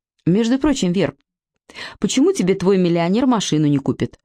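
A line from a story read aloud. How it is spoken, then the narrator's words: Plain question. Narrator (Russian): спросила Алинка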